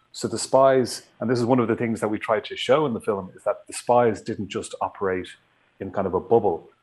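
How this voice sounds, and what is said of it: Irish accent. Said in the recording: “Your lovely accent tells me you are from where? ... Ireland.”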